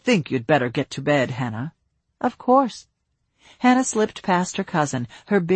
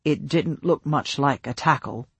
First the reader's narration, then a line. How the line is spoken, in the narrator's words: Luca said, his tone dry